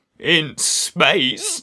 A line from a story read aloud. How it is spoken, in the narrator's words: she croaked